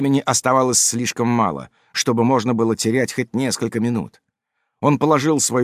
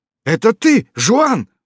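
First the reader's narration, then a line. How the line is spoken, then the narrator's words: Exclamation. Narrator (Russian): воскликнул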